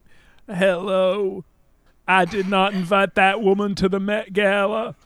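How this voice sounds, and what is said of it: Imitates another person's voice. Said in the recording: “such a good impression of him ... Getting into character”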